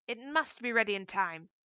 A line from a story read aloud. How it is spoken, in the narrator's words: yelled, his voice quivering with rage